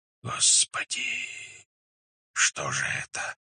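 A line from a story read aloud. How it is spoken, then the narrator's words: Many voices whispering. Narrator (Russian): зашептали сторонники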